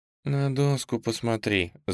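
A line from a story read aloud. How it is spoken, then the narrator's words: Quiet, exasperated. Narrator (Russian): закатив глаза, тихо произнесла Настя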